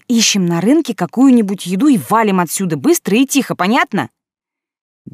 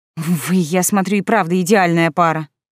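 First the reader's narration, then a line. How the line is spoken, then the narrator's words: Grumbled mutter. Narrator (Russian): пробурчала я этим ненормальным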